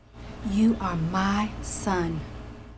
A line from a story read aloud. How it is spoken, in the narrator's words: she whispered to him